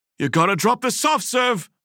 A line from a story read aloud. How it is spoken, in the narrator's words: Valentine shouted at his brother